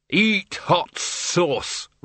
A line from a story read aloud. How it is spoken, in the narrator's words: roared the Arch-Chancellor